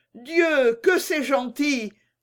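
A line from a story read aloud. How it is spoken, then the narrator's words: Delighted exclamation. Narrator (French): s'écria le guichetier qui venait d'entrer et dont la figure rubiconde s'était épanouie comme une pivoine à l'aspect de la jolie marionnette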